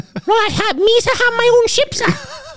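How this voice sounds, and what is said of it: Imitates Jar Jar Binks voice. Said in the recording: “I could listen to you impersonate Jar Jar all day.”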